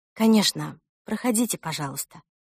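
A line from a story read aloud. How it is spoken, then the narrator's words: Tired, from behind. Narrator (Russian): устало сказала Эльсина мама из-за спины Брит-Мари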